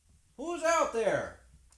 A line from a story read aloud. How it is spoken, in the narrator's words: her husband called out